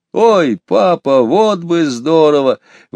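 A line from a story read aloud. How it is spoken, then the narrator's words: Excited exclamation. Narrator (Russian): воскликнул Петя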